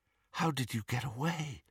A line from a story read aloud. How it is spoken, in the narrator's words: Harry asked, and he was not surprised to hear himself whispering